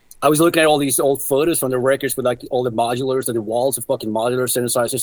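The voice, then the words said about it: Stuffy, congested voice. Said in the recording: “I had a bit of a cold, by the way. That's why I sound a bit stuffy.”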